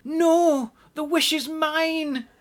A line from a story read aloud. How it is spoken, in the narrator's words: yelled Susan